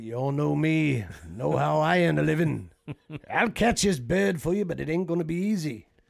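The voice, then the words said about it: Impression of Quint speech from Jaws. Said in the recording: “That was a great impersonation. ... Ben Davis does it the best.”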